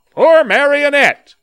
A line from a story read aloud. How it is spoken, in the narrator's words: called out one man